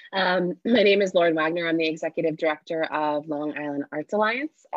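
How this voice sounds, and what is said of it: Voice sounds a little funny, sick. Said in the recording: “I've been sick for a little while, so I apologize if my voice is a little funny.”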